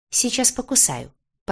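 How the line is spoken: Playful threat. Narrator (Russian): пообещала я

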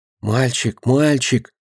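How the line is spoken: Trembling whispered call. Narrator (Russian): дрожащим шепотом позвала Динка

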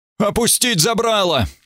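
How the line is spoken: Shout. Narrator (Russian): прокричал граф Эбергард

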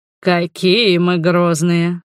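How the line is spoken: Almost purring. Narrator (Russian): практически промурлыкал Эдгар

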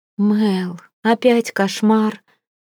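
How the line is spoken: Sleepy whisper. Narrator (Russian): сонно шепчет Сэм, которую я разбудила своими стонами и криками

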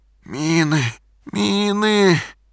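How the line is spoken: Hoarse wheezing. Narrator (Russian): продолжал хрипеть Игорь

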